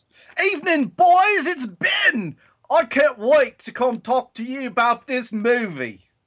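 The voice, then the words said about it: Put-on Australian accent impression. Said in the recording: “your weird affectation ... Ben Affleck with an Australian accent from Austria.”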